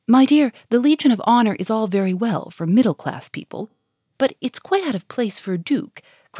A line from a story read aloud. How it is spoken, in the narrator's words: cried Germaine